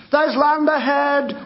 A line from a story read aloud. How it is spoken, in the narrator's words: shouted